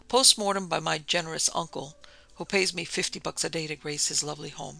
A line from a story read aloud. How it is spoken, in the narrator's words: she laughed